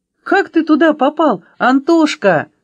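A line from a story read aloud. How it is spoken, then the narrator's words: Exclaiming. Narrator (Russian): воскликнула Аля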